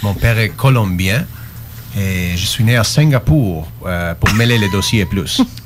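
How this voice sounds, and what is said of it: Unusual mixed French accent. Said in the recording (French): “Malgré mon accent bizarre.”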